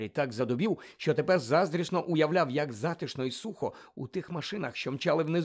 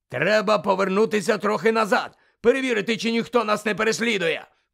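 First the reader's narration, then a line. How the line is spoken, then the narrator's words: Shout. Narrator (Ukrainian): крикнув Муді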